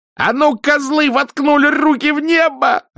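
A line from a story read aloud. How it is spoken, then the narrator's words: Gleeful bellowing. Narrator (Russian): радостно завопил он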